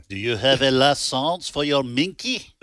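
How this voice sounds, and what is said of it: Put-on French accent. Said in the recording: “I'm just doing a French accent.”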